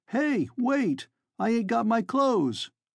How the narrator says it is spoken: a fellow wearing Mocklin guest garments, yelling

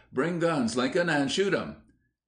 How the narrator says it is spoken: Allen, thinking to frighten the Negroes, called out

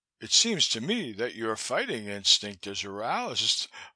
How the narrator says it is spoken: I laughed

